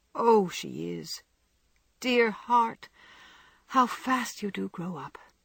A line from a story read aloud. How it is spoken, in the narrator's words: returned her mother with a sigh and a smile